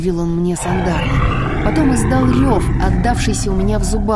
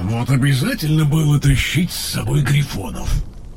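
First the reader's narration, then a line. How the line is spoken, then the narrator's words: Muttered. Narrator (Russian): пробормотал Тейрн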